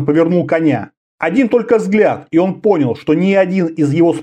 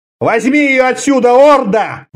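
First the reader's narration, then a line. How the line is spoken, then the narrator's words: Roared. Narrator (Russian): взревел Конан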